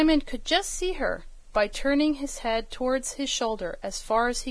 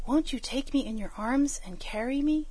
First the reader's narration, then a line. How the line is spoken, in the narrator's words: he said in a whisper, for he knew she did not like a loud voice when she was small